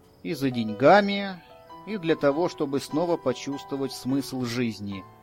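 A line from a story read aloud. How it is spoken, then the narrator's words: Sighing. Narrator (Russian): вздохнул я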